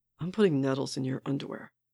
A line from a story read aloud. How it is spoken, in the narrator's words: Barnes mumbles, fully turned away from Sam